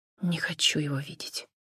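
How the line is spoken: Quiet. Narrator (Russian): тихо сказала

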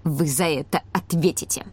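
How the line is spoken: Ominous mutter. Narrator (Russian): зловеще пробормотал Ланги

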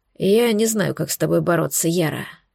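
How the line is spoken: Tired. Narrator (Russian): устало проговорил

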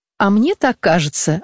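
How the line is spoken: Laughing reply. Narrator (Russian): отвечала она, смеясь

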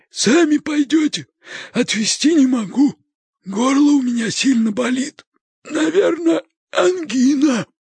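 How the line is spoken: Creaky voice. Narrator (Russian): ответил Леший своим скрипучим голосом

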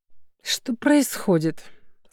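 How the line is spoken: Hoarse sleepy question. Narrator (Russian): спросила сиплым с просонок голосом Мигера

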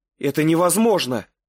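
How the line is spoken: Shout. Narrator (Russian): крикнула

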